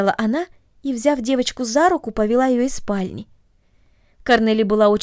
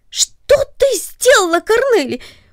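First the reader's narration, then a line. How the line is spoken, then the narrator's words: Startled cry of surprise. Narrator (Russian): вскрикнул от внезапного удивления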